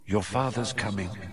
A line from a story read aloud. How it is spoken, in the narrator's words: she said quietly